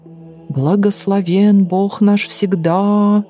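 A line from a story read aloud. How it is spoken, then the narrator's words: Trained voice, loud chanting. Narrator (Russian): заблажил он поставленным голосом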